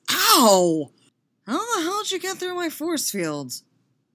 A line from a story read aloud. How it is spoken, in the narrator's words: Con whines, cradling his smarting face